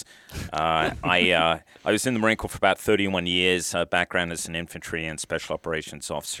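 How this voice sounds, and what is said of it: Foreign accent in English. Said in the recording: “as you can probably tell from my accent, I am what they might call a first-generation immigrant”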